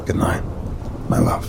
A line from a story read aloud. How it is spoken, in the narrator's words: softly said